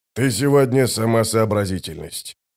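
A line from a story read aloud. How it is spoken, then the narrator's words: Grumbled. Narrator (Russian): буркнул командир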